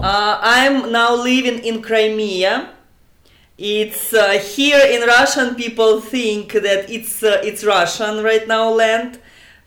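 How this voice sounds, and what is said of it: Russian accent. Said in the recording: “You're the first person I've interviewed from Russia, and I'm sure our listeners have heard that from your accent.”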